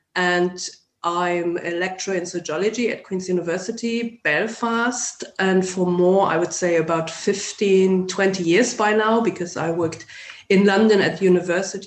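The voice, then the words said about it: German accent in English. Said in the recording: “as you can guess from my accent, I'm not neither Northern Irish nor English. So I'm originally from Germany”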